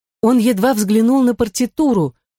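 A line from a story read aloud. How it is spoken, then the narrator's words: Exclaimed. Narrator (Russian): воскликнула Мари-Жозеф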